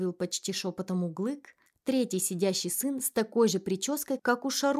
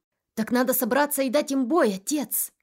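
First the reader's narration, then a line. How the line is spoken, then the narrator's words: Exclaimed. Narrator (Russian): воскликнул Касым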